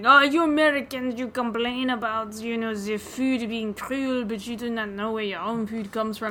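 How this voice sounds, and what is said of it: Imitates a French waiter's accent. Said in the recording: “that was his accent. I'm actually doing a really good impersonation of him”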